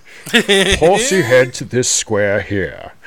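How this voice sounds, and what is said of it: Imitates another person's voice. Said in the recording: “I could hear Ian McKellen saying that in his Magneto voice.”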